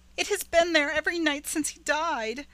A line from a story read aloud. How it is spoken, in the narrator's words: cried Rebecca